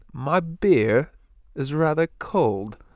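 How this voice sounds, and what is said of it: Put-on upscale British accent. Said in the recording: “That's pretty good. ... you're so like classically upscale British that you don't even have that Cagney accent”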